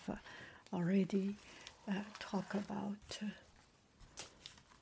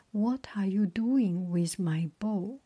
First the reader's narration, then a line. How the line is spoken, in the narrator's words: Apollo asked angrily